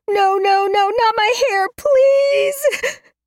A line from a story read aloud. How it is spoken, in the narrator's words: Zen sobs